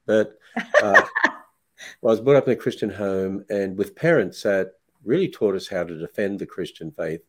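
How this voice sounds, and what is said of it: Australian accent. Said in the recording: “I hope I still have that Aussie accent.”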